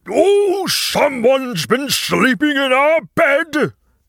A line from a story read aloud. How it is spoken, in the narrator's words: Papa roared